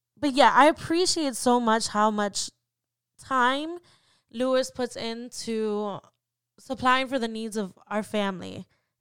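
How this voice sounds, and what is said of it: Emotional, close to tears. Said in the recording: “I don't know why I'm getting emotional. I'm trying not to.”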